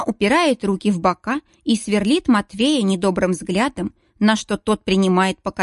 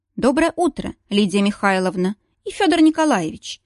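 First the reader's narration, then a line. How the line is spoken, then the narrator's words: Measured, calm. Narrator (Russian): Проговариваю размеренным, спокойным тоном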